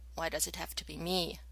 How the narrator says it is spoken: Ronan growled

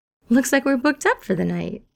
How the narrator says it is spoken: Steed exclaims

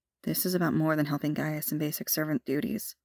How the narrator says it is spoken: Morgana murmured, her eyes dark

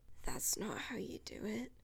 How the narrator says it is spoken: Mike rasps

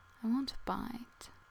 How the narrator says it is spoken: he whispers

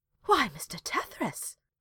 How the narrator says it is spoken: she gasped

